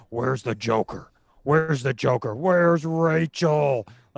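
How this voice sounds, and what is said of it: Christian Bale Batman voice impression. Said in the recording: “do the Batman voice ... I'm just doing Christian Bale as Batman”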